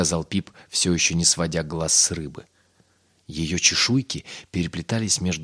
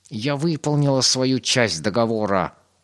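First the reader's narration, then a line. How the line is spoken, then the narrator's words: Trembling, excited growl. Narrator (Russian): прорычала крыса, вся дрожа от волнения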